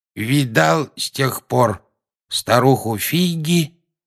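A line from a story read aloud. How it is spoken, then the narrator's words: Plain. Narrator (Russian): спросил он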